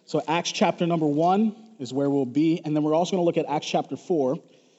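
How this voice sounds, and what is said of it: Slightly hoarse voice. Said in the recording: “my voice is a little hoarse this morning”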